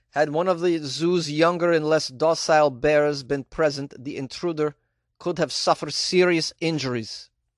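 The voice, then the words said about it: Put-on Polish accent. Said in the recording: “Is this a good Polish accent? I have no idea.”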